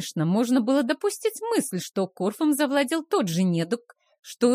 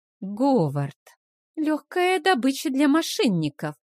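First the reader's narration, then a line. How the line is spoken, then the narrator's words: Sorrowful sigh. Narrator (Russian): сокрушенно вздохнула Вилма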